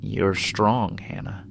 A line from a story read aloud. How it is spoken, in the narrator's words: she said softly